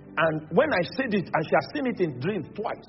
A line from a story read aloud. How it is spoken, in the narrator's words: she shouted